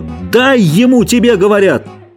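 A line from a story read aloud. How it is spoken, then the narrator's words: Shouting again. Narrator (Russian): Джордж крикнул снова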